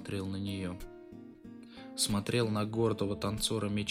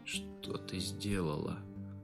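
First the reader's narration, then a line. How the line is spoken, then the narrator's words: Hoarse question. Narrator (Russian): хрипло спросил я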